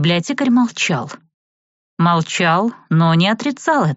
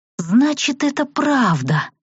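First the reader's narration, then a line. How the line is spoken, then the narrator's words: Astonished breathy exclamation. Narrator (Russian): выдохнула я пораженно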